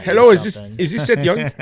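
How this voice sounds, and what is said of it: Put-on Indian English accent. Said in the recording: “they got a freaking East Indian accent.”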